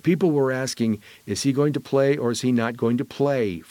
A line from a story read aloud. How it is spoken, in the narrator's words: Freeman says